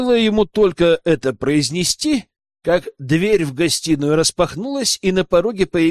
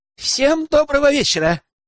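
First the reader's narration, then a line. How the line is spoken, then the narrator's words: Joyful young woman greeting. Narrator (Russian): Девушка радостно приветствовала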